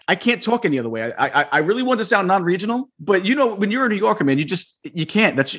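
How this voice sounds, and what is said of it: Thick New York accent. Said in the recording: “It doesn't help that your accent's so thick. That brings mine out.”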